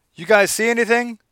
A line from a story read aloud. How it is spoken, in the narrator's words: Sea Jester yelled